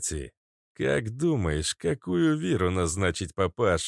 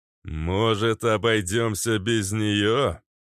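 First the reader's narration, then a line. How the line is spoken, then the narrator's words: Loud, after a pause. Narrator (Russian): Громко, чтобы слышали все, произнес, помолчал и добавил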